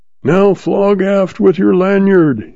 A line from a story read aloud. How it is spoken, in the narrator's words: he yells